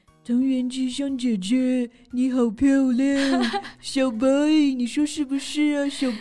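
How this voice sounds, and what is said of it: Imitation of Crayon Shin-chan's voice. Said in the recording (Chinese): “我模仿小新声音，我觉得还挺像的 ... Oh, you totally got the spirit. 你这个小白也太像了吧？”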